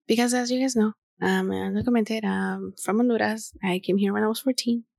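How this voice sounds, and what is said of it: Spanish-accented English from Honduras. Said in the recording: “I get so self-conscious of my accent... I love my accent. I love when people tell me you have an accent.”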